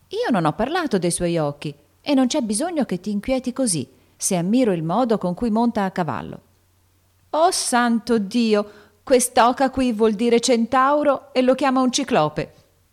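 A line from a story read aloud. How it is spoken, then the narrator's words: Exclaiming, bursting into laughter. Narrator (Italian): esclamò Joe scoppiando in una gran risata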